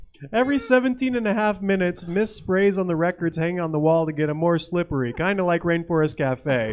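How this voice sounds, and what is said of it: Usual voice. Nothing is said of it.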